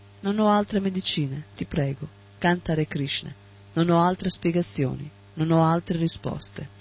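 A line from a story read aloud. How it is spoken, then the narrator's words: Pleading, understanding. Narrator (Italian): Con uno sguardo supplichevole, pieno di comprensione, Prabhupada disse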